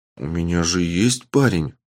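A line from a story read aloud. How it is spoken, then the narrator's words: Mumble. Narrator (Russian): пробормотала Силвия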